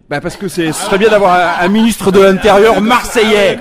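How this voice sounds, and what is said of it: Put-on regional French accent. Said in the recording (French): “C'est quoi cet accent, on est bien d'où? ... Ah, ouais, là, il fait l'accent.”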